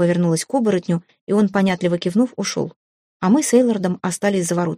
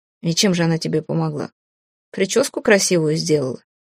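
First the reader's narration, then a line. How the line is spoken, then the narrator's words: Scoffing snort. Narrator (Russian): Мак хмыкнул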